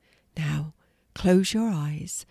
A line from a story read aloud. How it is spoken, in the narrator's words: she instructed in her soft voice